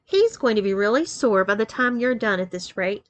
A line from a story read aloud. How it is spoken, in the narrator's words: laughed Beth tenderly